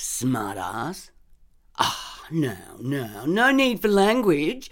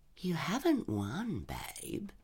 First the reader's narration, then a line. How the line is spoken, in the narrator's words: Dave said softly